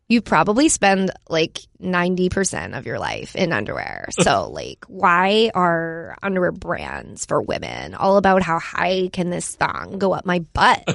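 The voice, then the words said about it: Heavy vocal fry, imitates another person. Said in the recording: “can you do this MeUndies ad read as if you were Kristen Cavalier? ... So a lot of vocal fry and like.”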